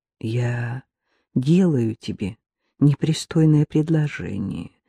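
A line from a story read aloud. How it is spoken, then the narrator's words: Soft gentle voice. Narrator (Russian): мягко произнес он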